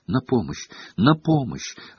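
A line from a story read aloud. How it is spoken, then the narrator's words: Desperate whisper. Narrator (Russian): отчаянно шептала Гермиона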